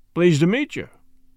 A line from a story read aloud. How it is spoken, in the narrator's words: said Mr